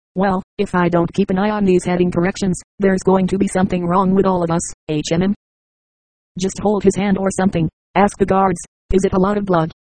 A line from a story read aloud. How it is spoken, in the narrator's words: Conrad asked